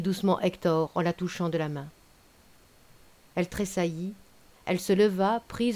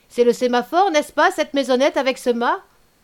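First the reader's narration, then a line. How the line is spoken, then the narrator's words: Cried out. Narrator (French): cria M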